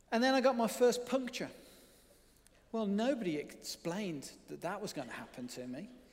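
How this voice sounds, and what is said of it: Birmingham accent. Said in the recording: “the suburban wilds of Birmingham, if you hadn't already worked that out from my accent”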